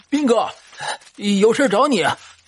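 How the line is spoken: Shouting while running. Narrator (Chinese): 同村的王胖子跑了过来，一边跑一边喊

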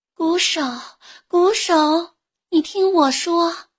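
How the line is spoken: Gentle calling. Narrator (Chinese): 一个温柔的声音朝他呼唤

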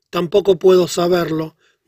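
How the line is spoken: Plain, the geographer. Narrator (Spanish): dijo el geógrafo

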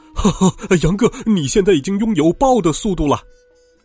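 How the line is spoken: Happy shout from a pocket. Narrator (Chinese): 爸爸在我的口袋里高兴的喊道

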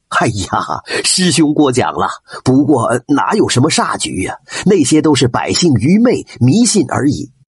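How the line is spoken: Hearty laughter. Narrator (Chinese): 张县令哈哈大笑

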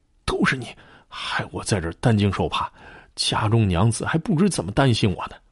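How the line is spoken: Low complaining voice. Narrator (Chinese): 吴红低声怨道

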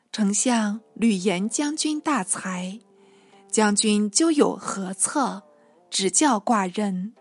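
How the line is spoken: Plain. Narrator (Chinese): 信答道

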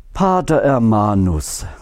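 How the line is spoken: Resigned sigh. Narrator (German): seufzte die Mutter Oberin resigniert

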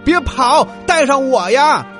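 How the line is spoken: Calling out. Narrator (Chinese): 青蛙叫道

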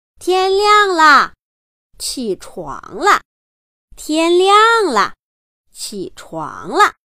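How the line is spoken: Loud calling. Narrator (Chinese): 高声地喊着

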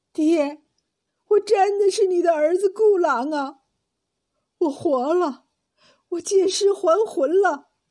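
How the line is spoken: Sobbing bitterly. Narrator (Chinese): 那男子痛哭道

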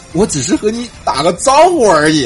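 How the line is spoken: Fawning, simpering. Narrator (Chinese): 那货媚笑着说

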